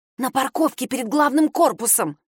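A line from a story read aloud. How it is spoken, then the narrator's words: Hissing. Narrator (Russian): прошипела Надежда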